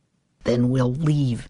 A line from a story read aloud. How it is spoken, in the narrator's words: she said fiercely